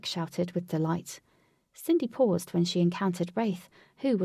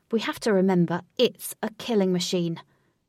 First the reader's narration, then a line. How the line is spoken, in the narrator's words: Wraith snapped to the group